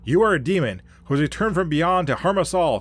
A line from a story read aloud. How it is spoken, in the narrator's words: cried the man